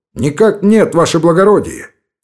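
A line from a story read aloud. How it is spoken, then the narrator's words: Shout. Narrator (Russian): крикнул Гайнан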